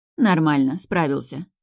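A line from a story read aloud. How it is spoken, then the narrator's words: Amused grunt. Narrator (Russian): Женька хмыкнула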